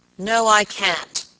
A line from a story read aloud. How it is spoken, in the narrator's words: answered the baker, growing very red in the face, and speaking in an unnecessarily loud voice